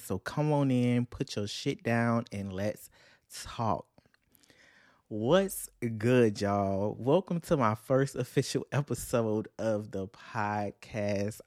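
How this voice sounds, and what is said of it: Excited voice. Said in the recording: “I'm so excited, man. I know you can hear it in my voice.”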